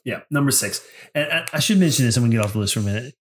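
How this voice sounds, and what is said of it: Congested, extra nasal voice. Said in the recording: “my voice is a little off this week, and you may hear me sniffing in the background, I am battling a really bad cold and some allergies big time ... If I'm coming off a little nasally this week, more nasally than usual, because I know my voice is naturally like that nasally tone”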